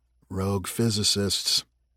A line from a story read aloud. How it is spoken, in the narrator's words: Matt muttered